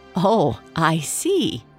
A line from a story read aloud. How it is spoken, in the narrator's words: Georgina giggled